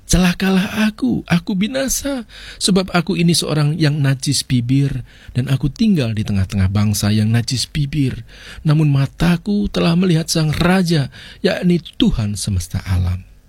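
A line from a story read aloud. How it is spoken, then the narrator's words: Crying out. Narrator (Indonesian): Yesaya malah berseru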